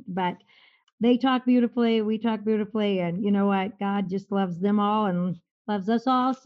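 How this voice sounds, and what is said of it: Minnesota accent. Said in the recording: “oh, I love your accent ... my accent from Minnesota”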